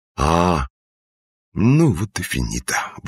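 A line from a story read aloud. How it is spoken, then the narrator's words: Exhaled. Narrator (Russian): выдохнул исправник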